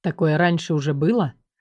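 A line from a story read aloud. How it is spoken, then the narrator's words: Soft question. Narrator (Russian): Тихонько спросил Азор у моего темени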